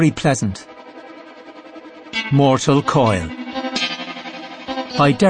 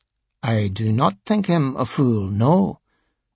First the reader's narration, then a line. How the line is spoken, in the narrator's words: Wreath answered calmly